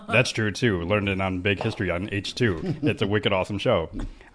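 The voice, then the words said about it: Imitation of a friend's voice. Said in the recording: “can you read it in Mike's voice? ... do a good impression of me.”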